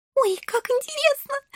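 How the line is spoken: Happy squeal. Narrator (Russian): счастливо взвизгнула Шелли

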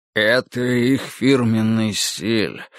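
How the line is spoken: Sad confirmation. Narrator (Russian): грустно подтвердил Фариш

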